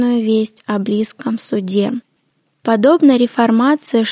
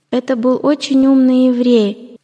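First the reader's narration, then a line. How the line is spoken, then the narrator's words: Plain. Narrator (Russian): ответили ему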